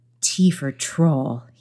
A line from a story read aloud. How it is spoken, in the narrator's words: he muttered